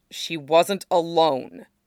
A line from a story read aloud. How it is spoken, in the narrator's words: Hakoda said firmly